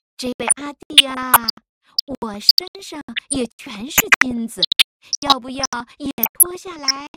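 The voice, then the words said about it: Soft girlish Dongxing regional accent. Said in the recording (Chinese): “用软妹的东兴口音说”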